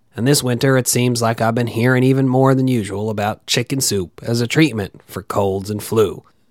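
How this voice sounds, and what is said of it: Scratchy, congested voice from a cold. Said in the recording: “You can probably tell from my scratchy voice and congested sound that I've got a little cold”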